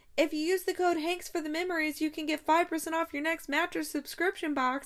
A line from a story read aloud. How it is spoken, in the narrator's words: he called out the window